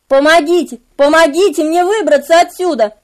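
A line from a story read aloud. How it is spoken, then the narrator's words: Shouting. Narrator (Russian): закричал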